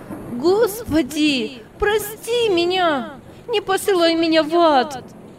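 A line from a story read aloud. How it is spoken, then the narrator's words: Desperate scream drowned out. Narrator (Russian): в отчаянии закричала Даша, закрыв лицо руками, но голос ее утонул в грохоте и в визге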